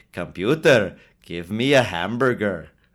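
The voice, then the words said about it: Scotty impression, fake-sounding accent. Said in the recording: “bad Scotty impression, which kind of proves my point that his accent is terrible and fake sounding”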